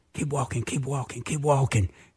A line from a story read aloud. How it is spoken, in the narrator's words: all of a sudden I whispered